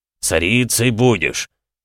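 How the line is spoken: Impatient growl. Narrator (Russian): рыкнул Военег, теряя терпение

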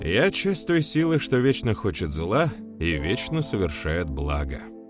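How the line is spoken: Philosophical, chuckling. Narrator (Russian): философски ответил парень, хохотнув

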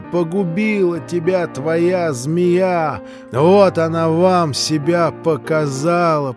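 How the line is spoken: Shouting, shaking with rage. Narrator (Russian): прокричала она, сотрясаясь от злобы

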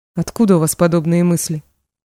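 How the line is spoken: Dry reply. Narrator (Russian): сухо отозвалась Мечка

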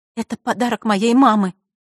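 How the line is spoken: Trembling voice. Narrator (Russian): дрожащим голосом произнесла Василиса

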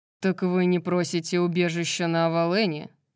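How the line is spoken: Dry question. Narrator (Russian): сухо спросил Морван, подперев кулаком подбородок

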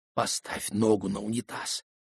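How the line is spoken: Whispered. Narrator (Russian): шепнул Крисан

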